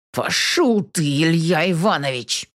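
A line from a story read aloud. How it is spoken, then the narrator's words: Through gritted teeth. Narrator (Russian): цедит сквозь зубы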